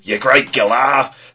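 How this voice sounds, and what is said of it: Australian bushman character voice. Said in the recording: “my Bushman impression”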